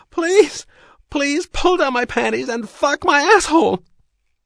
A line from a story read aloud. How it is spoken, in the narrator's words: she screamed